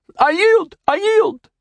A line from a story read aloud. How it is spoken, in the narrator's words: he squeaked